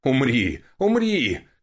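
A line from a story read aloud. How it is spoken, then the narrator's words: Wizard shouting. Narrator (Russian): кричал маг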